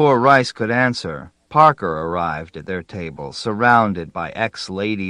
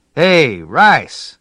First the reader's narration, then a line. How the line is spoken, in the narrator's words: Parker shouted